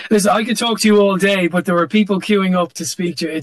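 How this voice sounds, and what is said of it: Irish accent. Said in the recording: “It's really cool to hear your accent ... my Irish brogue”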